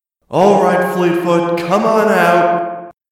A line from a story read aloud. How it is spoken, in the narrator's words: she shouted into the woods